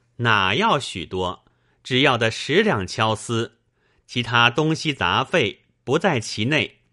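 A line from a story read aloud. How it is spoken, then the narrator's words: Cheerful, smiling. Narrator (Chinese): 舅妈回嗔作喜，带笑而言道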